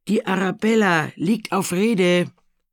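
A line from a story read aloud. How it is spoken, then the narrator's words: Someone calling out. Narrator (German): jemand rief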